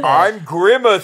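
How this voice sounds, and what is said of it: Shouting. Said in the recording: “stop shouting your name in the middle of the street”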